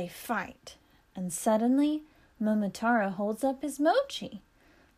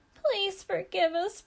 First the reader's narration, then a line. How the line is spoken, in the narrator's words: plead the monsters